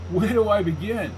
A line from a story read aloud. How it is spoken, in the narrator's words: I laughed